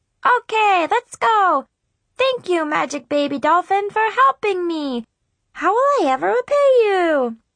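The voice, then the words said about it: High squeaky chipmunk cartoon voice. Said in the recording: “my best impression of Alvin from Alvin and the Chipmunks”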